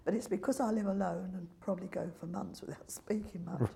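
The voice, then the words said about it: Strained, fading voice. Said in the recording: “I'm losing my voice. ... I've been losing it for a long time.”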